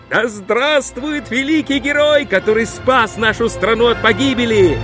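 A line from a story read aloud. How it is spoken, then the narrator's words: Crowd shouting joyfully. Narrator (Russian): Люди в восторге кричали ему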